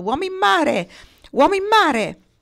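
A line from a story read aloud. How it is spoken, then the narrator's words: Shouting. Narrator (Italian): alle grida di Lotti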